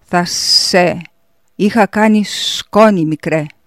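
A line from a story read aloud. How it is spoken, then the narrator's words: Hissed, losing temper. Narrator (Greek): σφύριξε, χάνοντας τελείως την ψυχραιμία του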